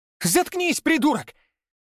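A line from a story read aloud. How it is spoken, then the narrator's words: Shrill shriek. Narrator (Russian): Взвизгнул в ответ Павел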